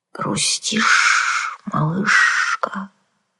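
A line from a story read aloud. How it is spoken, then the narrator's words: Sympathetic hiss. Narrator (Russian): сочувственно прошипела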